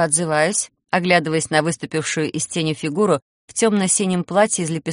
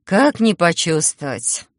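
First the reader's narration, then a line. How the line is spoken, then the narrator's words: Sigh. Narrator (Russian): вздохнула я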